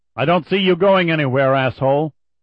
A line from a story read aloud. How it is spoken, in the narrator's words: The shout was loud enough that Tucker and Charon heard the buzz from 10 feet away